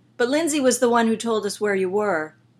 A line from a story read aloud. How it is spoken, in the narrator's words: Steve yelled